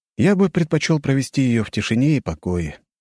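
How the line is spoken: Sad sighing. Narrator (Russian): грустно вздохнув

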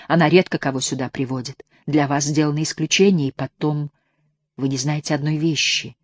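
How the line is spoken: Whisper. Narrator (Russian): Все так же шепотом продолжала Санда

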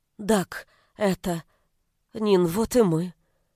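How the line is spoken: Timid. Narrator (Russian): робко произнесла Варя

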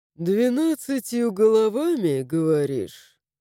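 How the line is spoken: Skeptical snort. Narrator (Russian): хмыкнул Аарон

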